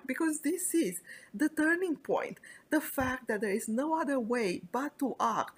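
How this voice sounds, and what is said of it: Excited, energetic delivery. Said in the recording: “you probably hear the excitement in my voice”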